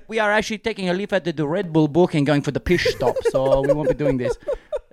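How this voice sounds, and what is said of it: Generic European accent. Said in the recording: “that's a spot-on impersonation ... It was just a generic European F1 driver accent.”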